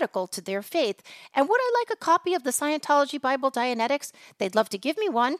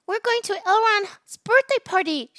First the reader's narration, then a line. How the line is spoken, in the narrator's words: squealed